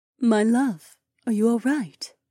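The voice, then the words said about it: Quiet, soft voice. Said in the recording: “asked in a quiet voice.”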